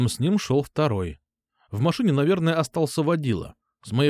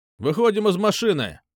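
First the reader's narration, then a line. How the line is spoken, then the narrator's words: Shouted. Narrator (Russian): крикнул мент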